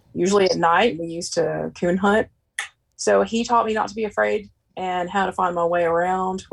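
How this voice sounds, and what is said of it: Southern American accent. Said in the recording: “someone with a Southern accent saying, going on a coon hunt. It just sounds good. It sounds natural”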